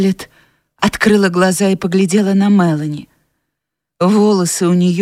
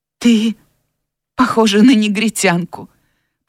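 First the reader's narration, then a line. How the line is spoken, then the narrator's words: Tired mumble. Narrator (Russian): пробормотала Скарлетт, устало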